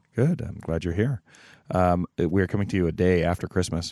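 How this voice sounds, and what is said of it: Slightly off, congested voice. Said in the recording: “My voice is a little wonky because I'm getting over a cold”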